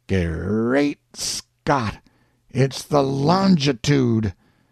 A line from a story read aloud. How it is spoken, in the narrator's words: his breath to come out kind of gaspy-like, and he says